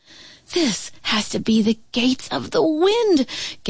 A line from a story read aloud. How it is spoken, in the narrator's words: Gamma Lee cried, struggling to keep her balance